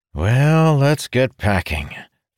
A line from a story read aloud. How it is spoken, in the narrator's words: Fendar said with a sigh